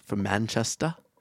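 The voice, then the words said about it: Attempted UK accent. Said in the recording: “That's my attempt at a UK accent. ... You really nailed it.”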